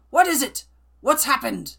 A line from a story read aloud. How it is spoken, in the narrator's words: shouting